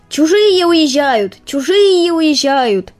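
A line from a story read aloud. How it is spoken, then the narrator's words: Rooster shouting. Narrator (Russian): кричал петух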